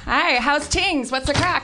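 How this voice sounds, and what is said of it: Put-on Irish brogue. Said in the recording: “did you come back with an Irish brogue?”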